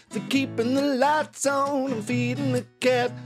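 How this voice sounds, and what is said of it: Singing in falsetto. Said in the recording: “that was a better falsetto than I've done in recent weeks.”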